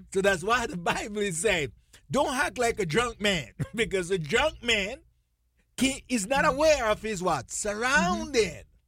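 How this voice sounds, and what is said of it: Speaks with her own accent. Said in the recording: “I get excited, so I better slow it down so you can pick up my accent.”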